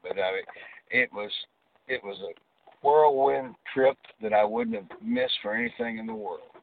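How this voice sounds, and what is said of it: Southern American accent. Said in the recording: “that Southern accent”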